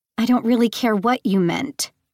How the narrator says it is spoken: she snapped

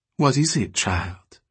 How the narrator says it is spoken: she said softly

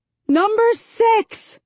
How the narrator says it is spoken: I shout

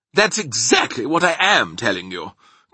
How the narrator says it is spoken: cried the Air Force man

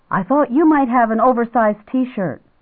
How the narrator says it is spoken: Improvising wildly, he said

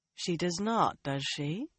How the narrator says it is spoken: Moiraine murmured

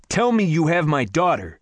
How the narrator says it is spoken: I shouted

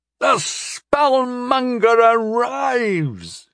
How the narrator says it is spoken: he called out at the top of his lungs

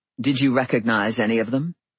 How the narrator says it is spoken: She snorted

